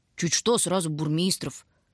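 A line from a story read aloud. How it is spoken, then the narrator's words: Grumbling from back row. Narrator (Russian): ворчала в заднем ряду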